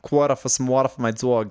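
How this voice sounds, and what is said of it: Put-on New Jersey accent. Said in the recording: “That's Jersey.”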